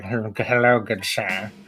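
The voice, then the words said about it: Put-on British accent. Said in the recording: “he'll speak with like more of a British accent.”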